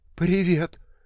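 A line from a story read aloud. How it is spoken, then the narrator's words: Trembling reply. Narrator (Russian): ответил дрожащим голосом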